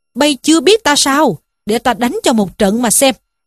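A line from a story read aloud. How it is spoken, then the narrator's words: Furious angry shout. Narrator (Vietnamese): Trí Thâm cũng hầm hầm giận dữ quát lên rằng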